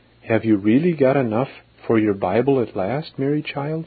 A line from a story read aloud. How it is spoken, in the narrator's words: cried